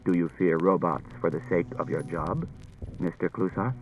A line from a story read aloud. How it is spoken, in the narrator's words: Daniil said quietly to Klusar